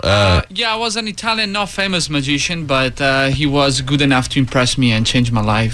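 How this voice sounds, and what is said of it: Italian accent. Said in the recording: “you got a great voice. You got a great accent ... I'm from Italy, Venice.”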